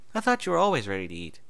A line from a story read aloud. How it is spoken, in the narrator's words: Twilight said with a chuckle